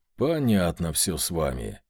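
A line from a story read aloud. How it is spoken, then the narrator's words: Sigh. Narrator (Russian): вздохнул я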